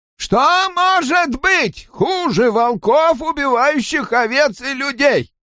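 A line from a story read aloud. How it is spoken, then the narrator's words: Loud question. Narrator (Russian): спросил громко Кен Буе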